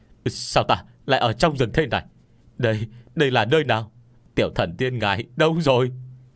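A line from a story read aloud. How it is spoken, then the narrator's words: Frightened screaming. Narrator (Vietnamese): bị cảnh tượng trước mắt dọa cho hoảng sợ một phen, hét toáng lên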